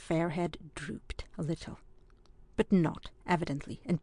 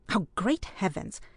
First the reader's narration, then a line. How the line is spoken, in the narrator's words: exclaimed his parent